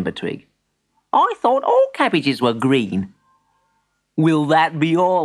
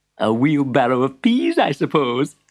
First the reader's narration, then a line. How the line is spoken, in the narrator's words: chuckled the shopkeeper